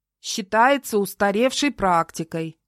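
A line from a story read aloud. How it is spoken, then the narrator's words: Loud reading aloud. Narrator (Russian): продолжал громко зачитывать с телефона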